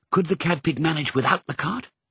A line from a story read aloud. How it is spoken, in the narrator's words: He whispered to Mrs